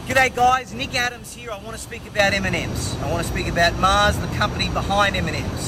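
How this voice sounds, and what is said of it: Australian accent. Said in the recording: “He's got the wrong accent. ... if I don't hear you talking about jumping on a crocodile or, like, how dangerous, pythons are,”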